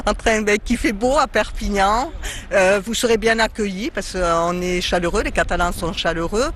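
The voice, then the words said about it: Regional southern French accent. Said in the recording (French): “déjà rien que votre accent nous transporte”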